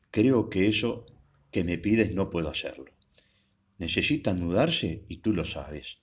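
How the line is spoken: Firm tone. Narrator (Spanish): dijo con tono firme

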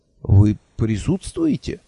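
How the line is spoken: Confused question. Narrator (Russian): растерянно спросил, кое-как справившись с этим потрясением

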